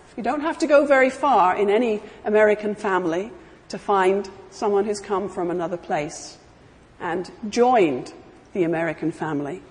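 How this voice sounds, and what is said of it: Foreign, non-native accent. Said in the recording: “I'm an immigrant myself, as you can tell from my voice.”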